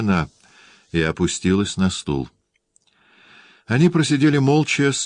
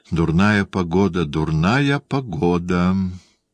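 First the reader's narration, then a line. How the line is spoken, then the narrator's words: Exquisitely polite, unpleasant tone. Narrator (Russian): сказал снова де Пренест, изысканно любезным, неприятным тоном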